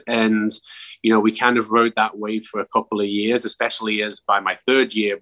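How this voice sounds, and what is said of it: Very thick English accent. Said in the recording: “you can hear his very thick accent. ... what's the biggest thing you miss about back in England?”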